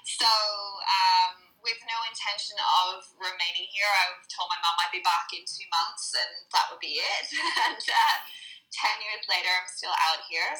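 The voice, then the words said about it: Northern Irish accent, slightly Australian. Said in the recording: “my weird accent. It's getting there. It's getting more Australian. I'm originally from Northern Ireland”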